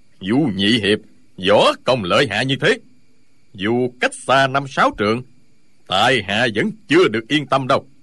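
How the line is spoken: Smiling old beggar. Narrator (Vietnamese): Lão Hành Khất mỉm cười

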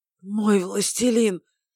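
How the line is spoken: Hoarse voice echoing. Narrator (Russian): хриплый голос эхом разнесся по комнате

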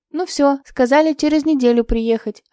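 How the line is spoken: Joyful. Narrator (Russian): радостно сообщила Евдокия Никифоровна

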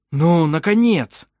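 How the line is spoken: Exclaiming. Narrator (Russian): воскликнул Вемонт Тарк

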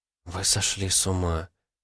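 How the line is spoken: Whispered. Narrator (Russian): прошептала Наталья

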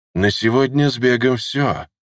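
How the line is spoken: Sighing. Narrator (Russian): вздохнул Нигим

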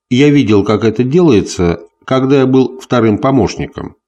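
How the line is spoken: Plain. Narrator (Russian): сказал капитан Уорд

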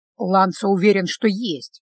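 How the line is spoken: Grumbling. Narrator (Russian): проворчал Стефано

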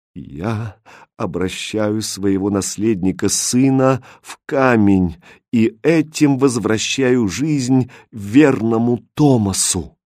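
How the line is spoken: Trembling voice, king. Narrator (Russian): Король дрожащим голосом произнес

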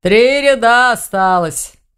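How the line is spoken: Grumbled. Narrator (Russian): проворчал Думун

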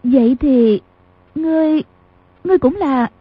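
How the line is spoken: Trembling voice. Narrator (Vietnamese): Bao Tích Nhược run run nói

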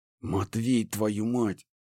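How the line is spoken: Growling. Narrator (Russian): зарычала Банши

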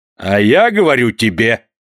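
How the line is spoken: Maestro's stern shout. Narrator (Russian): закричал строгим голосом маэстро

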